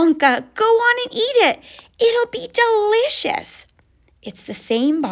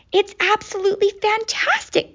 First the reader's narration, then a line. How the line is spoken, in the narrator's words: gasped Grandpa Joe